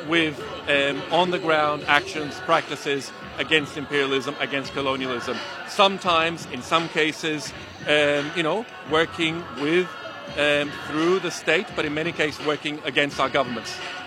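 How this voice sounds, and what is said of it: Venezuelan accent. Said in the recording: “if you can hear something in the accent, well, I come from Caracas, from Venezuela”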